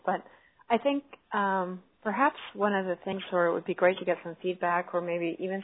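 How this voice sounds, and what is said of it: Hoarse, fading voice from a cold. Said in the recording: “losing my voice because I have a cold”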